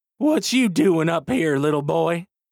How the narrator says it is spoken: He says, laughing and also a little out of breath

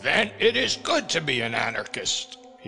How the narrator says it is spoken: he cried

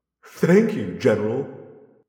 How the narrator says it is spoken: I said, laughing

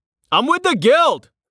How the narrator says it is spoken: Rain shouted

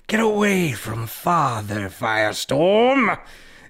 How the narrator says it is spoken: The Ing roared

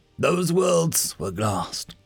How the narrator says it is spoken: the captain replied gruffly

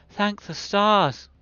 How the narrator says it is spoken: cried Princess Aliana at the sight of her mother

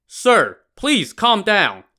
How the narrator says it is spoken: Chao Gai shouted

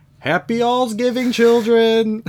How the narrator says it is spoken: From outside the door, we hear Aunt Maisie scream

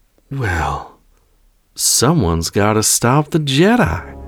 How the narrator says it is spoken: smiled grimly

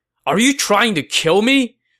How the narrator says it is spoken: Cao Cao said angrily

